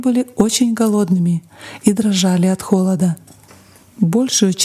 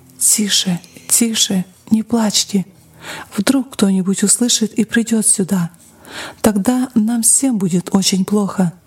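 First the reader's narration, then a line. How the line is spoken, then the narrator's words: Frightened whisper, mother. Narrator (Russian): Мать испуганно шептала детям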